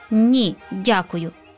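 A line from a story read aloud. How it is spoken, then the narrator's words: Plain. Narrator (Ukrainian): сказав святик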